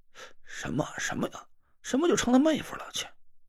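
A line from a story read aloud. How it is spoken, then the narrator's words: Head-down mumbling. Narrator (Chinese): 张俊轩低着头嘟嘟囔囔的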